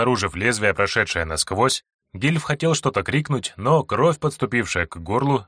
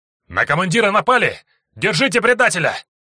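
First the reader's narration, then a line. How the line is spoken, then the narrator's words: Shouted. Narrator (Russian): выкрикнул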